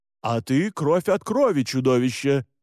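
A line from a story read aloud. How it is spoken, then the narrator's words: Barked. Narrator (Russian): рявкнул Александр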